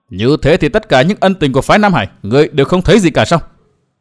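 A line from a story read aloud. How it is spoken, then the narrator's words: Harsh, strained voice. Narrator (Vietnamese): Tiêu phu nhân gằn giọng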